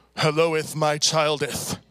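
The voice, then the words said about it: Thunderous, archaic God-like voice. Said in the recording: “sounding like a King James Bible ... in a thunderous voice”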